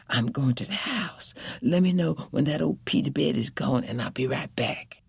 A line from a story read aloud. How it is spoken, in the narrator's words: whispered to Hezekiah